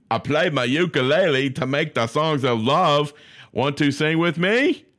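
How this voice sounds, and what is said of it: Put-on accent. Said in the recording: “I don't know why I just chose that accent. That was funny.”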